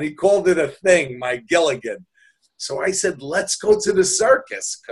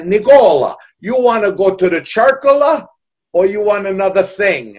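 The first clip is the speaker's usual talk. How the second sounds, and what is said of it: Put-on heavy Italian accent. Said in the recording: “with his heavy Italian accent ... with his Italian accent”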